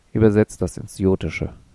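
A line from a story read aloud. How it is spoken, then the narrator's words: Growling. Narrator (German): Sabul knurrte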